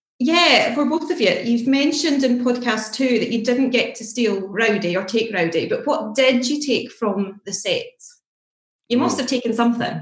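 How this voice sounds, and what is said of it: Scottish accent. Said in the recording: “Irish? ... Scottish ... I love your accent. I'm such a fan of that accent.”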